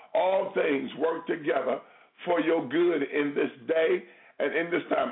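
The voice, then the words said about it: Excited, joyful preaching voice. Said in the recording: “I'm excited, as you can hear in my voice.”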